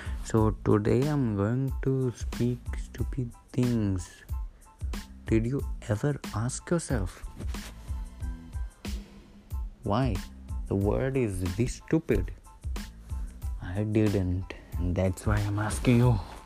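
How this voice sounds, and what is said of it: Silly put-on accent. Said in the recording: “Stopping to speak with a stupid accent.”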